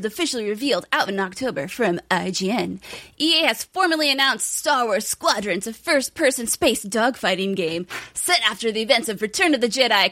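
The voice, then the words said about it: Exaggerated announcer voice. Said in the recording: “give it my awesome announcer voice”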